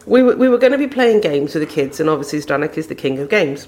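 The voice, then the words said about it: English Midlands accent. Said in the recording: “wonderful Midlands accent ... sounding like a Hoover”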